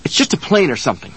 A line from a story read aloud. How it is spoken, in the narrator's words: he snapped at her